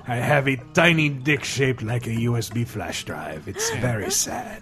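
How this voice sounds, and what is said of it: Generic fake Greek accent. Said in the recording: “a Greek guy listening. He's like, that is not what my accent sounds like... you sound like Antonio Banderas... That's just my generic fake accent.”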